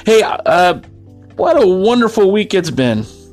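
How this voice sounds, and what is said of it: Sarcastic tone. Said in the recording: “and that's sarcasm. Can you hear it in my voice?”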